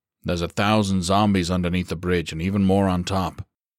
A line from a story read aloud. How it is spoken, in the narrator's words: Bretz insisted firmly